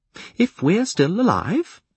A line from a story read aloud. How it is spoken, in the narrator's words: Patience conceded cheerfully